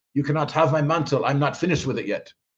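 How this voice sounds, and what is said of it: German accent impression of Reinhard Bonnke. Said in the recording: “Bonnke with his German accent goes”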